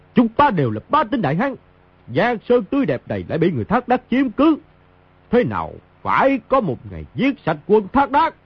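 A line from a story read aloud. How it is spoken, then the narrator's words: Loud defiant shout. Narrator (Vietnamese): Mao Thập Bát hiên ngang đứng giữa pháp trường, quát lớn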